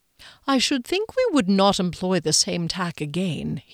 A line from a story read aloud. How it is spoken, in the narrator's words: suggested gently